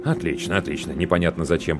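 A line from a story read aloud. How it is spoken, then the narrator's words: Mutter. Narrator (Russian): пробормотал мужчина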